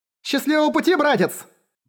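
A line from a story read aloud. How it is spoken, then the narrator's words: Shouted call. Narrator (Russian): выкрикнула Килл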